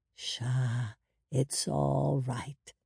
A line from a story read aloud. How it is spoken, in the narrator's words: Hoda cooed